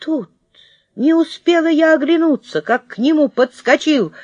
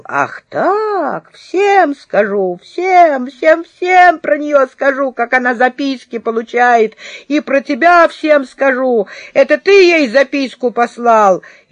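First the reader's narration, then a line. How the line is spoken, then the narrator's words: Howling wail. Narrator (Russian): Павлик взвыл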